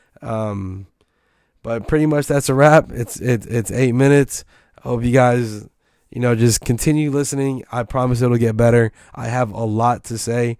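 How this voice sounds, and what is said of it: Hoarse, worn-out voice. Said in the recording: “my voice is gone right now”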